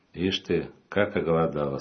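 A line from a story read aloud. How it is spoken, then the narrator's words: Plain. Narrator (Russian): сказала она Юле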